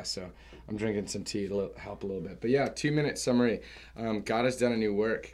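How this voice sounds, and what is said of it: Slightly hoarse voice. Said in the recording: “notice my voice is a little hoarse”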